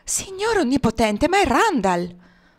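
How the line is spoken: Exclaimed. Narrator (Italian): esclamò

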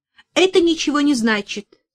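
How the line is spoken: Angry. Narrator (Russian): сердито сказала Верочка

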